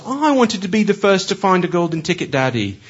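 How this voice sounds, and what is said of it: Put-on British accent. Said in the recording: “I want to practice my British accent”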